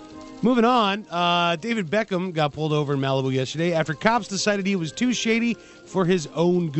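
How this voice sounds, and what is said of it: Usual voice. Nothing is said of it.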